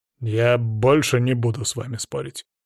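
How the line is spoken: Reluctant grumble. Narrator (Russian): нехотя буркнул Грачев

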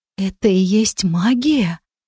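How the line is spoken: Whispered with numb lips. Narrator (Russian): прошептала я онемевшими губами

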